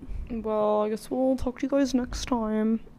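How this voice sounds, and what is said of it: Speaks in a put-on accent. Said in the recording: “What accent is that?”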